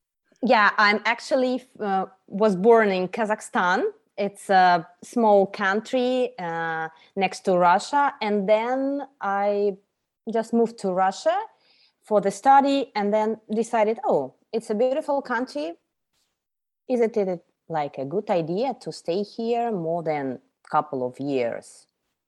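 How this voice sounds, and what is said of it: Noticeable foreign accent. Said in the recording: “what that sexy accent is?”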